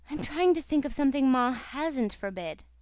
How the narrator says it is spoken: she answered with a sigh

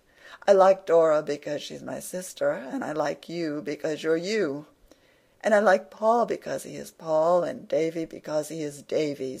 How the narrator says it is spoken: said Anne gaily

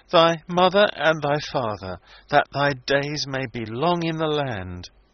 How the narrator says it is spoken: Wilding, sobbing as he quoted from the commandments

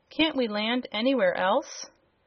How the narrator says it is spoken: gasped the sailor man

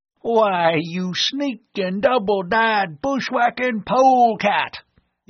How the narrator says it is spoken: the old Westerner bellowed

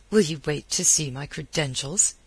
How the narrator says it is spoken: he snapped

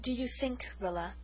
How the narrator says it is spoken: Mother said quietly, far too quietly

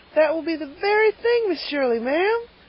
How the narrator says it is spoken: exclaimed Carlotta the Fourth in rapture

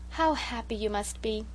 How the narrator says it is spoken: sighed Sarah Ray romantically

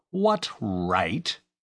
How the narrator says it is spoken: he added in an aggrieved tone

